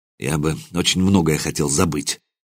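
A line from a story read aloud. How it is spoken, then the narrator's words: Muttered. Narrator (Russian): пробормотал я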